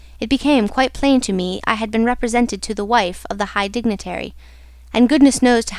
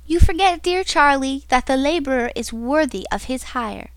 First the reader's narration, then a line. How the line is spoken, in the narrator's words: she said brightly